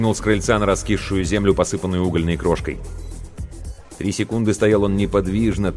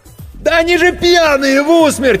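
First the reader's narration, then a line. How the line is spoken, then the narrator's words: Frantic yell. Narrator (Russian): истошно заорал Серега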